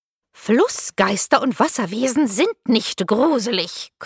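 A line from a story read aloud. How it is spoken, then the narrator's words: Aggressive growl. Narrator (German): knurrte meine Uhrenhexe angriffslustig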